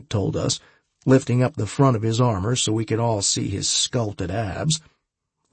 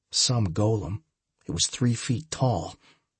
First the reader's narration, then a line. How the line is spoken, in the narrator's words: he muttered under his breath so it was barely audible to just me